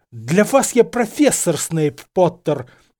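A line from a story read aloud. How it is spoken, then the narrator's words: Hiss. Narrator (Russian): прошипел Зельевар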